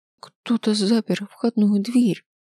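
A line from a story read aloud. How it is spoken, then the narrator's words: Trembling voice. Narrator (Russian): произнесла дрожащим голосом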